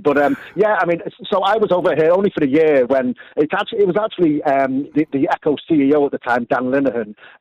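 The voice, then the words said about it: Northern English accent. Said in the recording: “I'm originally from the north of England, as you can tell”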